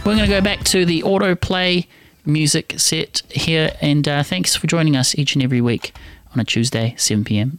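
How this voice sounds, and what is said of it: New Zealand accent. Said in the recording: “my wonderful New Zealand accent”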